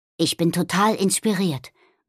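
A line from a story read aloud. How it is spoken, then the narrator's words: Murmured. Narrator (German): murmelte Nobby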